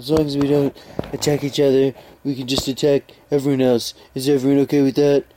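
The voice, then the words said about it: Imitates another person's voice. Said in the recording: “this is my Schronel Frumpf impression.”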